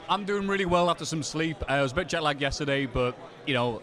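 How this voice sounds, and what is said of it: British accent. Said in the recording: “I'm from Britain, as you can no doubt tell by my accent.”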